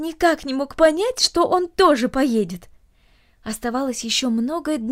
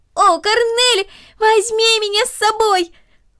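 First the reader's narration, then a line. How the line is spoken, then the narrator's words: Increasingly loud shouting. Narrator (Russian): Макс кричал все громче и громче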